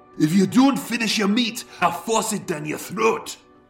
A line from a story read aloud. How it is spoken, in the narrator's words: with a mashed mouthful of potato, he spat